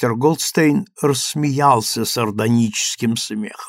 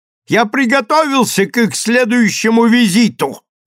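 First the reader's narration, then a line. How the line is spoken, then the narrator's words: Shout after someone. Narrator (Russian): крикнул он вслед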